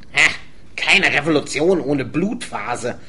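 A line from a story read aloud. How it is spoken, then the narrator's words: Sulky growl. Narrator (German): knurrte noch immer sauer über sein Abblitzen in der Disco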